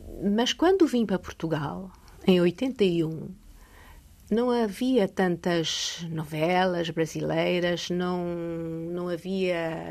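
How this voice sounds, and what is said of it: European Portuguese accent. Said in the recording (Portuguese): “hoje fala português com sotaque de Portugal”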